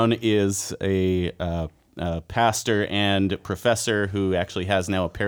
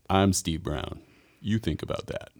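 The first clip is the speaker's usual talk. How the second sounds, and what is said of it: Deep radio broadcaster voice impression. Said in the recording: “my Steve Brown impersonation ... he has a fantastic radio voice”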